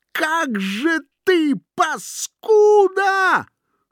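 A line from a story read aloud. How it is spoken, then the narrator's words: Strained shrill enraged shout. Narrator (Russian): налившись кровью, закричал натуженным визгливым голосом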